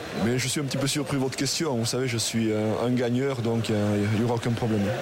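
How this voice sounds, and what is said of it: Aquitaine regional French accent. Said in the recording (French): “votre accent, euh, votre accent aquitain”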